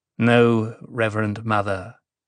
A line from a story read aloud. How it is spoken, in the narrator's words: Sightail murmured